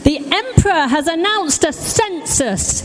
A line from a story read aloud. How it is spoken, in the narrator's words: he shouted